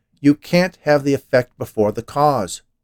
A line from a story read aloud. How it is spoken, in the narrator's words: Worm shouted